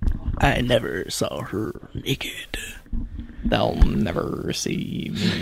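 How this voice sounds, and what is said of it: Imitates another person's voice. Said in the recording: “my Ben Kingsley Mandarin impression”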